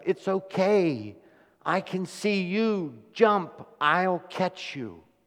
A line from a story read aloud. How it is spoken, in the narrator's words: the father hollered up